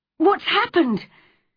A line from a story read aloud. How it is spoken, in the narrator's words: cried Mary's mother wildly